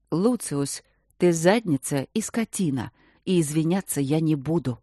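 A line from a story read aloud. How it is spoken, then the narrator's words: Firm voice. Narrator (Russian): уже совершенно твердым голосом сказала королева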